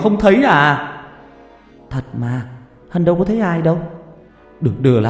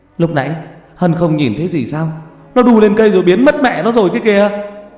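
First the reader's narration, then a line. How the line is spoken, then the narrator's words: Shout. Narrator (Vietnamese): Thằng Long hét lên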